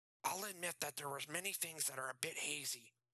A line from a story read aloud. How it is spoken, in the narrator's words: Nathan said through gritted teeth